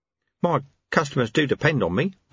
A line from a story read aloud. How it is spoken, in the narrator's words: Ronnie Soak mumbled